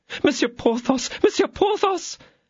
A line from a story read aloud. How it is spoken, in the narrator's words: exclaimed the attorney's wife